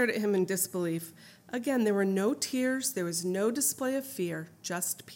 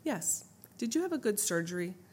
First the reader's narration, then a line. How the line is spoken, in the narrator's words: Todd calmly said